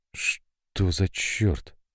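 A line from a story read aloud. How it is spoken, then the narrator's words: Whispered. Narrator (Russian): шепотом произнесла Кристина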